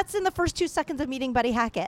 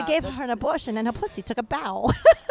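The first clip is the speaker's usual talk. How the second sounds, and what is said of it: Old-sounding comedian voice impression. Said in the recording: “his, his voice Amazing sounds a old. little like ... Christopher Walken. ... kind of like that kind of vibe. ... I don't know if I did a good Buddy Hackett impression”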